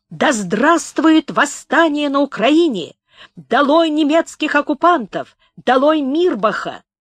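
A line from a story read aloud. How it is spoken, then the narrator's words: Shout in face. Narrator (Russian): Комков крикнул ему в лицо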